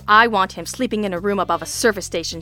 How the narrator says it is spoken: she said with a snarl

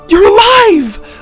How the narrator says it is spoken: Lydia shouted

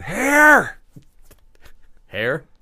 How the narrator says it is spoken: shouted

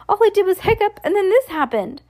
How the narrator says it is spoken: Dad cried

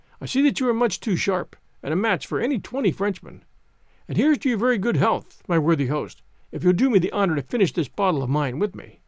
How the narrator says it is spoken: assented the stranger, cheerfully

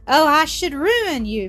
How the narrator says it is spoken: Mildred interrupted with a light, gleeful, happy laugh

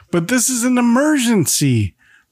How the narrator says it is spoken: Henry shouts

